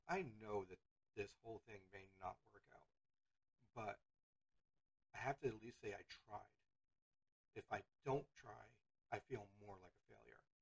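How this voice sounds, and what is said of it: Sick, rough-sounding voice. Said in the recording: “sorry for my voice. I am more or less still a little sick”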